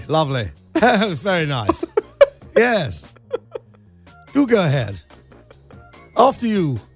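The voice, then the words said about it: Put-on posh London accent. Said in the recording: “different dialects, different accents ... Start in posh London, like Kensington.”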